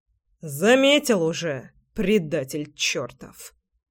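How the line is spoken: Grumbled. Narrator (Russian): проворчал Семен

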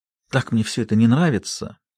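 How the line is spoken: Loud exhale. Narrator (Russian): Линда шумно выдохнула

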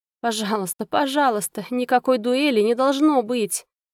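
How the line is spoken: Moaning plea. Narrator (Russian): простонала леди Сатеран

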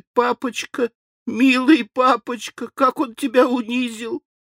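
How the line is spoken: Sobbing. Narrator (Russian): Зарыдал тут и яс

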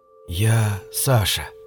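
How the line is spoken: Quiet. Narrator (Russian): тихо произнес я

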